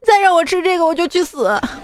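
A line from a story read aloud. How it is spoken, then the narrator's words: Crying. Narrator (Chinese): 他儿子当时就哭了，说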